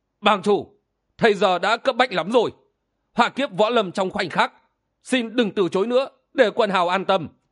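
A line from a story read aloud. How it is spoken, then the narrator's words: Loud, insistent. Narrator (Vietnamese): Thấy chàng từ chối mãi, Thiên Diệu Thần Cái mới lớn tiếng nói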